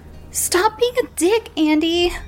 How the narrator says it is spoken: Melanie called out

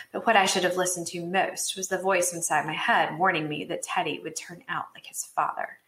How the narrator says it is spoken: She lowered her voice and said

